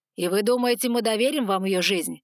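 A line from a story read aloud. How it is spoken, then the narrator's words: Growling dragon. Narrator (Russian): рыкнул один из огненных драконов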